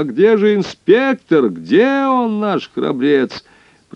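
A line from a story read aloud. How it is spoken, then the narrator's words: Shrill squeal. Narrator (Russian): Пронзительно взвизгнула Кайса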